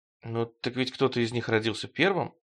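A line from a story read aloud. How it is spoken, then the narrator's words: Timid. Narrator (Russian): робко сказал Стремглав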